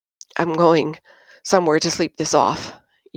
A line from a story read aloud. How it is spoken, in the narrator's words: Yin muttered, lurching from rage to embarrassment